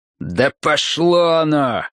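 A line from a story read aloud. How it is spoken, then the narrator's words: Angry, spitting. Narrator (Russian): ответил Ройс, злобно сплюнув себе под ноги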